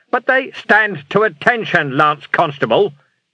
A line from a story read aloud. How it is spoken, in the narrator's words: shouted Vimes